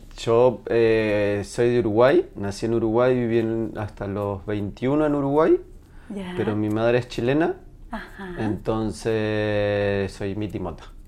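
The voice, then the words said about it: Uruguayan Spanish accent. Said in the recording (Spanish): “este acento maravilloso que tienes en el lenguaje”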